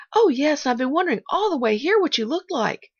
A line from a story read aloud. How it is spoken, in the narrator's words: cried the little girl, dancing on her toes